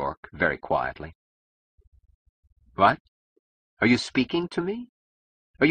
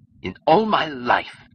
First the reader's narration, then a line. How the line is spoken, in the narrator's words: roared Francone